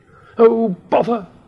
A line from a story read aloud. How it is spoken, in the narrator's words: cried Mrs